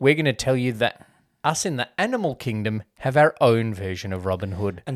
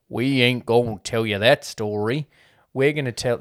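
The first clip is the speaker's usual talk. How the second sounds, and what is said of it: Terrible put-on Southern accent. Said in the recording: “that was a terrible accent.”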